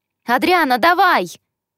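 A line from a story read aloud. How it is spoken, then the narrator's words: Yelling, loud clapping. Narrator (Russian): Заорала, громко хлопая в ладоши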